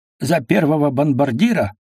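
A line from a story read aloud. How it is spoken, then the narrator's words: Red-faced bark. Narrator (Russian): багровый Головин гаркнул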